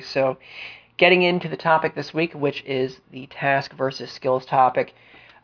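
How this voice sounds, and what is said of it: Flat, subdued voice with a cold. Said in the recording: “pardon the sniffle ... I'm a bit mellowed out ... I, of course, have been fighting the cold and taking some medication ... my voice is a bit flatter than usual. I'm not as animated.”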